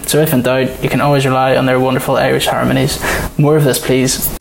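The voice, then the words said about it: Northern Irish accent. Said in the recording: “I thought it was just you putting on like a different accent. Because it's just a bit more Northern Irish.”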